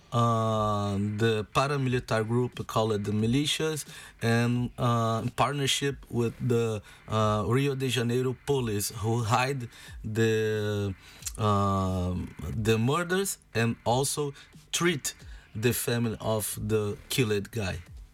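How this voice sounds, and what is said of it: Non-native English accent. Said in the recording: “Sorry, my accent.”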